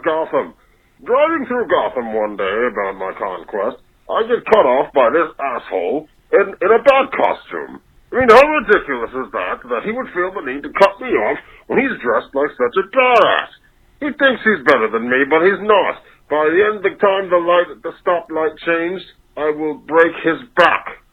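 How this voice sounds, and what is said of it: Impression of the villain Bane. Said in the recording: “It was a good impression. ... Bane”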